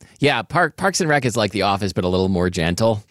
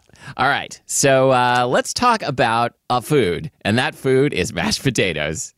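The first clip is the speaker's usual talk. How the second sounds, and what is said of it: Imitates a sitcom character's voice. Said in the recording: “That's my Purred Happily impression ... Purred Happily is a recurring character on the sitcom Parks and Rec.”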